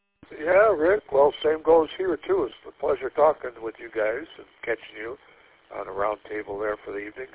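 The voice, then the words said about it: Congested, deep sinus-heavy voice. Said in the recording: “clear up my sinuses here. They're plugging up, talking, vibrating. Deep voice in my sinus cavity. ... before I can't breathe at all”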